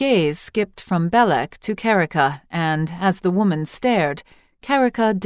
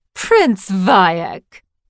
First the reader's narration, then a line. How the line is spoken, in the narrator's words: the witch cried, laughing as would a man after victory in a wrestling bout